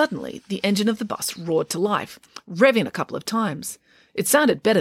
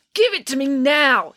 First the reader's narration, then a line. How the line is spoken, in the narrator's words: yelled Georgia